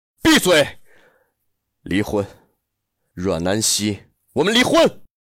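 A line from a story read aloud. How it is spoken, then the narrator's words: Shouting. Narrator (Chinese): 陆漠北 吼道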